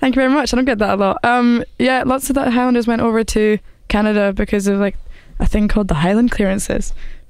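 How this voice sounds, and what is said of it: Beautiful accent. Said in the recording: “your accent's beautiful”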